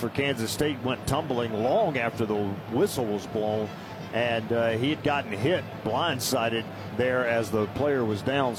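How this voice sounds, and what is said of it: Southern American accent. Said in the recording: “my southern accent... you'll never lose that”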